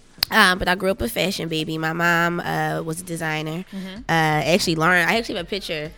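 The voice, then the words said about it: Hoarse voice. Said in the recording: “Excuse my voice. I woke up hoarse”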